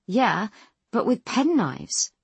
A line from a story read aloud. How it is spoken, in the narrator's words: Philip says with a nervous laugh